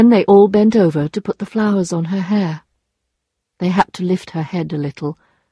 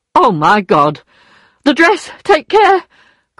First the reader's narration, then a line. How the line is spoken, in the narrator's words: cried Madame Lefrançois